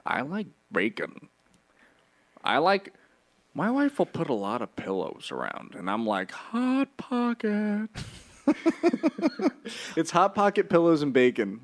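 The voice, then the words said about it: Imitates another person's voice. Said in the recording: “what's Jim Gaffigan without that guy? ... That's my impression.”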